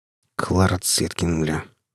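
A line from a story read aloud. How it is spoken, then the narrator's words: Muttered. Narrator (Russian): буркнул Толик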